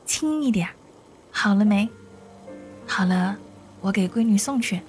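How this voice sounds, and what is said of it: Quiet hushed voice. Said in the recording (Chinese): “小声”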